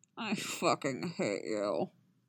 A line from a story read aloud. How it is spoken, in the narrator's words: Yasker groans